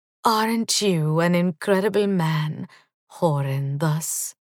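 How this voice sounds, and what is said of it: Creamy, seductive voice. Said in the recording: “in my creamiest voice,”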